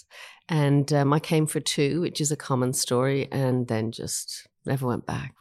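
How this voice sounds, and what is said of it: Irish accent. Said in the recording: “you can probably hear from my accent. I was born in Ireland”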